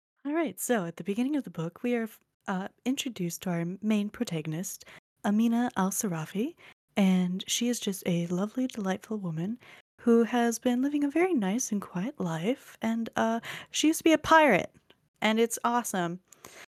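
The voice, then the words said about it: Calm public-radio narrator voice. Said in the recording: “Did you like my NPR voice? ... I was just going to say NPR voice.”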